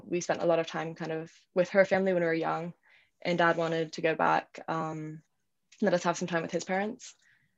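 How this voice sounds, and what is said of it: Mixed British and American accent. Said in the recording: “my accent is like a little funky. When I'm talking to British people, it gets even more British. And then when I get like really emotional, it gets even more American.”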